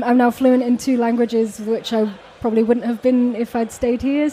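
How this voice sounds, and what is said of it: Slight English accent. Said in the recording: “you have a little bit of an English accent”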